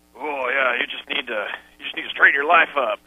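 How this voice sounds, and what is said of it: Put-on Southern Texas accent impression. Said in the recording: “Is that your best Southern accent? ... No, he's not really Southern. He's sort of a Texas obnoxious”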